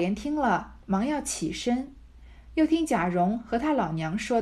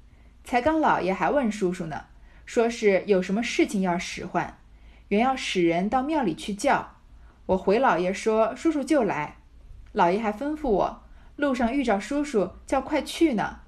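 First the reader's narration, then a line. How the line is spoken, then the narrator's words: Smiling. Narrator (Chinese): 向贾琏笑道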